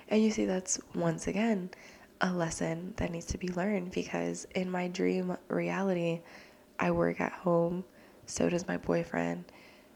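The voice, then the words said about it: Nervous whispering, quiet voice. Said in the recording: “I'm still fucking whispering. I cannot, like, physically make my voice speak louder because I'm so nervous”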